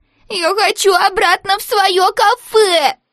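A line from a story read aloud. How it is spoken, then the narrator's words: Whimpering. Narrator (Russian): захныкала и Молли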